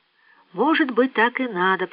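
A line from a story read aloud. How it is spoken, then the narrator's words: Thoughtful whisper. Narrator (Russian): прошептала она, словно размышляя вслух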